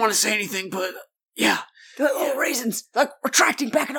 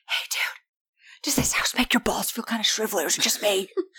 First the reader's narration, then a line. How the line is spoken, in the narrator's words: speak half in a whisper